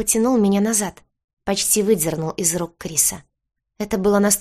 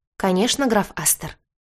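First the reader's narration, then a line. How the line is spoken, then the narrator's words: Calm answer. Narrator (Russian): спокойно ответил Оуэн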